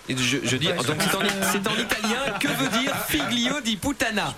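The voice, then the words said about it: Put-on Italian accent. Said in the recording (French): “J'adore ton accent italien.”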